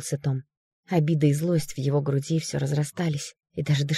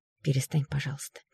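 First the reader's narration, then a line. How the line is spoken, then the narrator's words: Quiet request, sister. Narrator (Russian): тихо попросила его сестра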